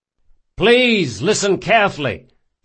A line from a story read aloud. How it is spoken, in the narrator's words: shouted Locke